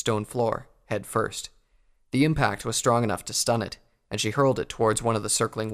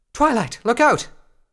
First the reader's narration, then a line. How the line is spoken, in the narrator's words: Rarity cried out